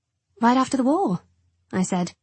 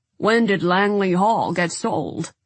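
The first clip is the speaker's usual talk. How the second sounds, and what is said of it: Deep voice, transatlantic accent. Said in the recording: “in a deep voice with a definite transatlantic accent”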